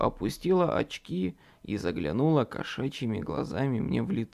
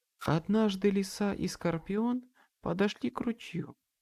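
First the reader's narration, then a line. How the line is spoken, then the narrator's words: Serene calm tone. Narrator (Russian): начала Мэп безмятежным тоном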